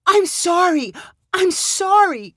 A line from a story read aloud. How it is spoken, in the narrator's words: cried Mallory's daughter